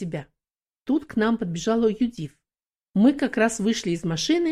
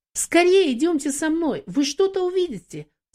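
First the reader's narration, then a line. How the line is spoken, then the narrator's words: Excited exclamation. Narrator (Russian): взволнованно воскликнула Юдив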